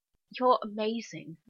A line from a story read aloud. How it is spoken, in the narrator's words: John yawns